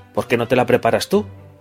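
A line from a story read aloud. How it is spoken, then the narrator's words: Snapped retort. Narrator (Spanish): le espetó Bruno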